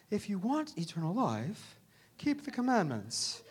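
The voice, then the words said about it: Calm, peaceful voice of Jesus. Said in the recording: “Jesus is this really calm tone, you know, just very peaceful guy ... this is like God's voice”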